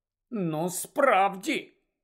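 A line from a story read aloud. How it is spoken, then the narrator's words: Grumbled. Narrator (Ukrainian): буркнула мадам Малкін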